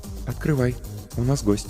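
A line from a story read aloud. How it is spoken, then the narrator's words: Quiet. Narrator (Russian): негромко сказала Ольга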